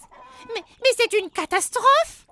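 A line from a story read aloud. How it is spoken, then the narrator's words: Exclaiming. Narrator (French): s'exclame un autre lutin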